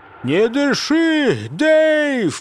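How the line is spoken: Panicked shout. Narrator (Russian): в панике крикнул Фокин

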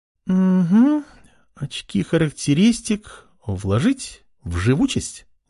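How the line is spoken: Uncertain speech. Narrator (Russian): неуверенно говорила она

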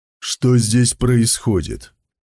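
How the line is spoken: Businesslike question. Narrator (Russian): Рабочим голосом спросил Сон Цзюй

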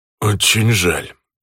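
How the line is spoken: Through gritted teeth. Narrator (Russian): процедил сквозь зубы Жора

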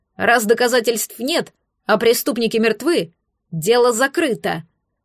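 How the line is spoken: Official's barked snap. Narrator (Russian): рявкнул министр

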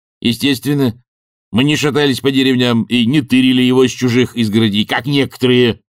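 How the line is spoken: Snapping retort. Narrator (Russian): огрызнулся он

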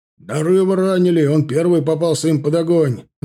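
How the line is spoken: Yelled. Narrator (Russian): заорал Черепанов

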